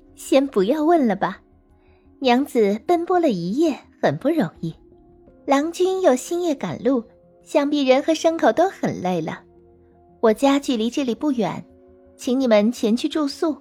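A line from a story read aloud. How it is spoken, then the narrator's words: Muffled laugh behind hand. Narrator (Chinese): 女郎已捂着嘴笑着说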